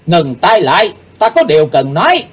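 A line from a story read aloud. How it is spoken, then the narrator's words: Deep shout. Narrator (Vietnamese): Chàng nắng trầm rồi quát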